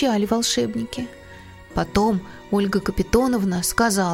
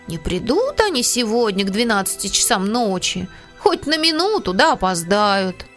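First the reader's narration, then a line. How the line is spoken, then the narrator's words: Grumbling. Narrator (Russian): Пантелей Захарыч проворчал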